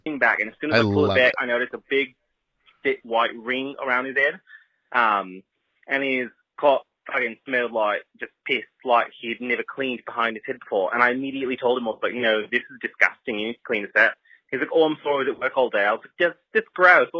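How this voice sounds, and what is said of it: Fake Australian accent. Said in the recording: “Fake Australian accent ... It's a fake Australian accent. And it was good.”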